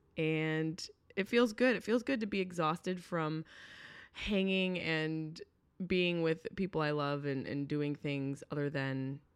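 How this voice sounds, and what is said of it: Hoarse, worn-out voice. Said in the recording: “I don't know if you can hear in my voice ... My voice is shot. It's shot from screaming and laughing so hard with my friends.”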